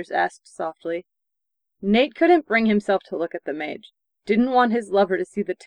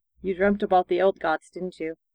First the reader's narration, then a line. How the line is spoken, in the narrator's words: Anders said quietly